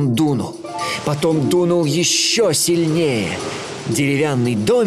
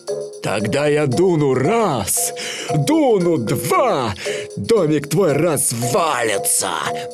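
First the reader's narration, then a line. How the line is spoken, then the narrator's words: Menacing wolf growl. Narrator (Russian): прорычал злой серый волк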